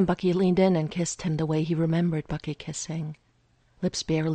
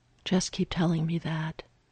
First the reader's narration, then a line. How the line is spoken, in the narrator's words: Steve whispered back